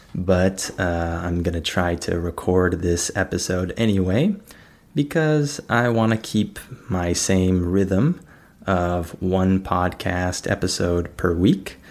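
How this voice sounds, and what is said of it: Slightly sick-sounding voice. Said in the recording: “I'm a little bit under the weather ... I'm a little bit sick, and you might be able to hear that in my voice”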